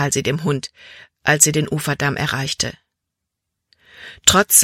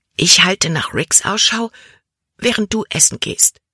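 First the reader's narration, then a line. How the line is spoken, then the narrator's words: Whispered. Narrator (German): flüsterte Libby Caleb zu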